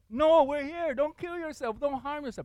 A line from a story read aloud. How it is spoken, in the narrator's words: Paul yell out